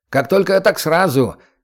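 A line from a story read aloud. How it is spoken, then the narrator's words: Cheerful reply. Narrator (Russian): весело отозвался речник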